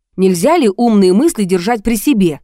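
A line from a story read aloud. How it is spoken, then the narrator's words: Angry question. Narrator (Russian): зло спросил Сергей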